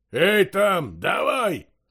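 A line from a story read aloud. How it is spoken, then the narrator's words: Roaring, raised voice. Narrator (Russian): взревел он, возвысив голос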